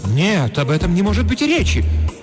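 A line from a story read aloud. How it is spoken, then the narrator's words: Dramatic exclamation. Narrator (Russian): патетически воскликнула хозяйка дома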